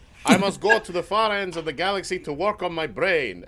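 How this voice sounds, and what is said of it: Put-on unidentified accent. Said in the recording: “I don't know what the fuck this accent is”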